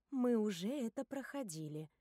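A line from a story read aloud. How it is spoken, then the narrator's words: Soft remark. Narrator (Russian): мягко замечаю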